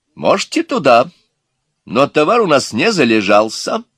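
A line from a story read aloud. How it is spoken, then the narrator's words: Offended explaining tone. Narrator (Russian): пояснил обиженным тоном мать невест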